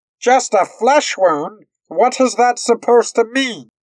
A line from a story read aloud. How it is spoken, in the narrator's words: Moore yelled out at him